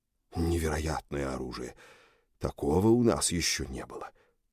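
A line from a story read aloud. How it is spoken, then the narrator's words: Awed, admiring mutter. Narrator (Russian): пробормотал Йорга с восторгом и уважением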